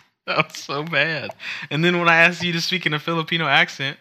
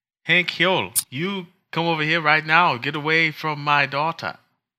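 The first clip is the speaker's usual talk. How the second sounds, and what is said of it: Cartoon character voice, Laotian accent. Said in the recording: “Can you do a Khan from King of the Hill accent? A Laos accent?”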